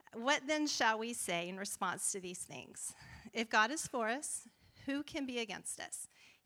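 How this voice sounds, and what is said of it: Texas accent. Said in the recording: “I try really hard to have a California accent, but it comes out. Texas comes out all the time.”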